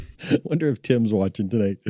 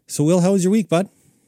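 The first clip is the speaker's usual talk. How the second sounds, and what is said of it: Put-on Canadian accent. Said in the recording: “I sound like a Canadian.”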